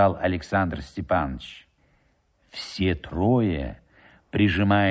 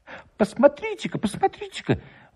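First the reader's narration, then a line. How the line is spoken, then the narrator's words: Village elder exclaiming. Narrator (Russian): воскликнул староста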